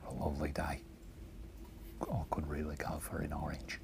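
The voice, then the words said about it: Quiet put-on Australian accent. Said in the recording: “I'll do my Australian accent, but I'll do it real quiet”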